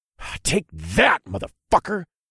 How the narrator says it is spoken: I spat

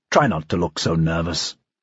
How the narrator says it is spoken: Dreyfus said quietly

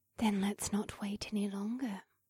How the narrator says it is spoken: she purred in my ear

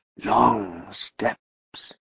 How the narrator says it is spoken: he muttered

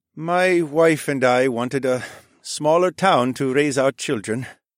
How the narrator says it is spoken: Farid sighed

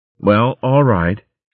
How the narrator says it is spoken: she said stiffly

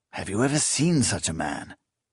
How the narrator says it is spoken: Proyas hissed, with frank admiration

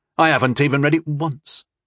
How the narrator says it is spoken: Tyndall snapped

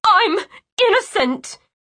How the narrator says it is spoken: She cried

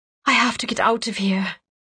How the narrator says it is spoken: she whispered

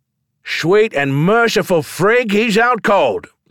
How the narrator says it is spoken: someone shouted

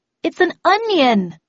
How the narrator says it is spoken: I said in a loud voice

